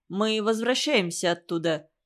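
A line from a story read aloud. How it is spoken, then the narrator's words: Plain. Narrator (Russian): сказал Арифата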